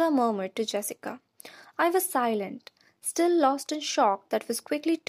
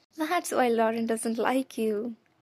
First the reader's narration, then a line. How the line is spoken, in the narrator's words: Jessica giggled